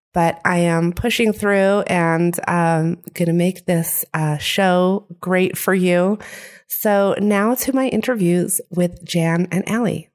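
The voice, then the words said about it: Speaking with a sore throat. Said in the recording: “I have a little bit of a sore throat.”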